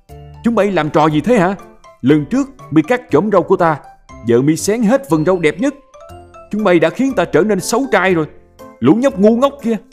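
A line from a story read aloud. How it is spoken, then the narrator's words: Roaring yell. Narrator (Vietnamese): tên yêu tinh gào lên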